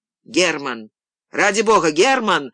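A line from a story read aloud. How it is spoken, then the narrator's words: Guard's sudden loud shout. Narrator (Russian): закричал вдруг громко охранник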